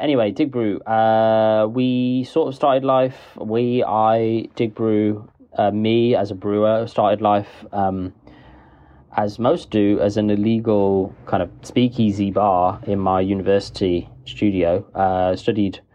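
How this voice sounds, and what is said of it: Wolverhampton-Birmingham hybrid accent. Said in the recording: “the Wolverhampton Birmingham hybrid accent”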